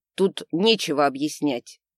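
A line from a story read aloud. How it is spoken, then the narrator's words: Barking. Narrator (Russian): рявкнул бледный магистр Дамиус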